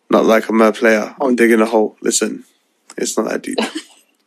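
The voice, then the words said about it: Tired, low, chilled late-night voice. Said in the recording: “I'm so tired that I'm just on the chilled vibes right now ... This is the gal dem voice ... he sounds like a fucking Drake interlude right now”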